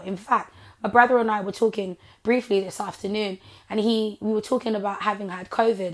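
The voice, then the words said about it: Hoarse voice. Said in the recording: “part of the reason why I sound like this is because I had COVID ... my voice is better now. It's hoarse now, but it's better now than it was before”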